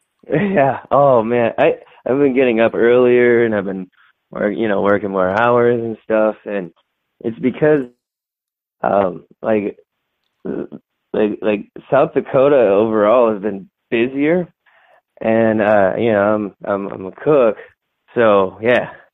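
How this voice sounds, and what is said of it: Tired-sounding voice. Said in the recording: “I can tell by the sound of your voice, you sound pretty tired”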